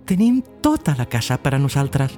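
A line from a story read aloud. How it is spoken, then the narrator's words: Woman speaking smiling. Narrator (Catalan): va dir la dona, somrient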